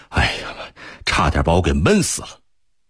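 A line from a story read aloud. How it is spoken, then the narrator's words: Breathless, panting. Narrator (Chinese): 贺仁杰喘着粗气说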